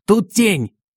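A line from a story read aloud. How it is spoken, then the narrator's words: Yelling. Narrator (Russian): заорал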